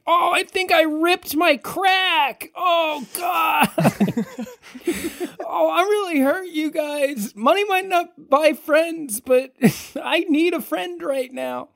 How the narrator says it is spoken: Seb is just yelling from the pavement

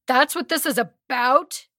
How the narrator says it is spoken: He yells

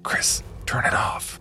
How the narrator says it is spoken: I whispered to him hurriedly

